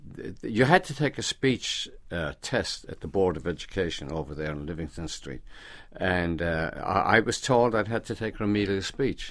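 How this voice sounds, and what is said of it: Speaks with an accent. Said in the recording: “It was hard for me to get a job because of my accent.”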